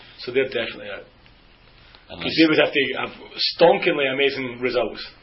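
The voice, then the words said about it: Speaks with a noticeable accent. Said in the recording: “I hope everyone understands my accent.”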